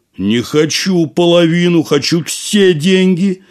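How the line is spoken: Shouting. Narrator (Russian): закричал Касим

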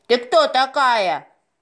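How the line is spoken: Shout. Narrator (Russian): крикнул он

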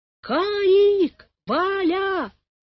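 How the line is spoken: Shouting again. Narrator (Russian): снова закричала она

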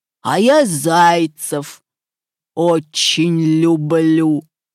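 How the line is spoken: Growling wolf. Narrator (Russian): зарычал волк

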